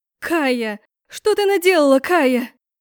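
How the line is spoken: Mother's anguished scream. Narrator (Russian): кричала мама, упав на колени

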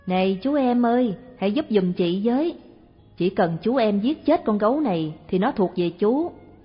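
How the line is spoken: Loud call. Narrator (Vietnamese): thị liền lớn tiếng bảo

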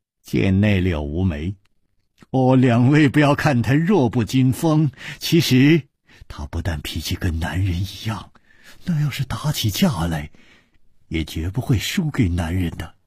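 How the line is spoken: Laughing. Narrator (Chinese): 李玉涵笑着说

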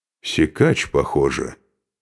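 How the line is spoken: Quiet speech. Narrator (Russian): негромко произнес Бьярни

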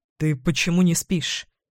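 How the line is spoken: Quiet question. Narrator (Russian): Тихо спрашиваю у нее

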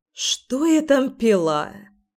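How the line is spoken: Grumble. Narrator (Russian): проворчала Ира

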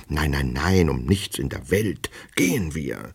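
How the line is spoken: Repulsive man whispering. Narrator (German): flüsterte der widerliche Mensch

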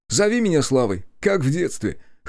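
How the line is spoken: Amused snort, male. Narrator (Russian): хмыкнул он

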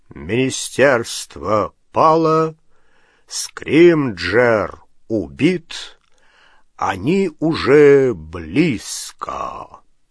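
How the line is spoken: Loud low drawling voice. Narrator (Russian): Патронус громким, низким, тягучим голосом Кингсли Бруствера сообщил

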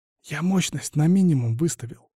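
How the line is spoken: Near whisper. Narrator (Russian): сказал почти шепотом

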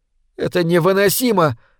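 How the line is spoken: Exclaiming. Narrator (Russian): воскликнула Лори

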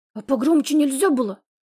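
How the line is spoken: Hissing. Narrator (Russian): прошипел

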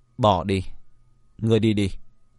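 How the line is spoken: Sighing. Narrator (Vietnamese): Thần Tình thở dài một tiếng nói

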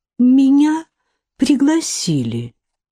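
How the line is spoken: Timid. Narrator (Russian): сказала Касси робко

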